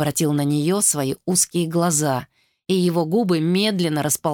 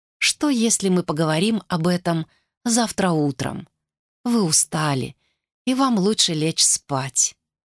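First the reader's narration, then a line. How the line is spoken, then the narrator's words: Soft. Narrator (Russian): мягко проговорила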